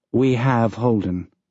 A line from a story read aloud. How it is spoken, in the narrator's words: Dawes said